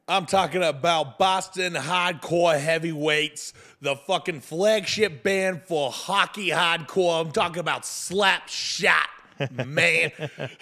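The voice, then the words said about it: Exaggerated put-on Boston accent. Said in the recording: “I can't even say it in my regular accent. I have to do it that way.”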